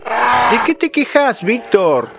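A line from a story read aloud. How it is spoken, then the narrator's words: Bear cub shouting, interrupting. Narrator (Spanish): interrumpió un osito, gritando desde su encierro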